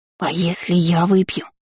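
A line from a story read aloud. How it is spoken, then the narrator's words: Female whisper. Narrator (Russian): прошептала зараза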